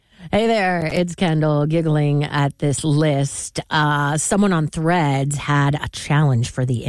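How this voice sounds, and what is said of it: Usual voice. Nothing is said of it.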